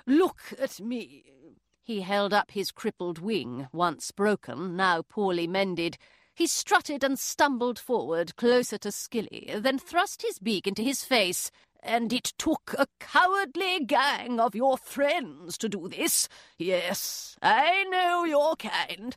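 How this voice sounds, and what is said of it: English accent storytelling. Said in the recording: “reading in an English accent”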